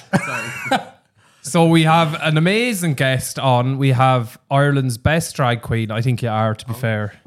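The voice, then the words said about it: Flat Irish accent. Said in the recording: “That's my accent. I'm flat. Like, well, from the middle”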